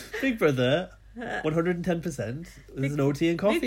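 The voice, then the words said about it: Poor attempt at Welsh accent. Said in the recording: “Can you do a Keem moaning about the tea and coffee being gone? ... God, we used to be able to do a Welsh accent.”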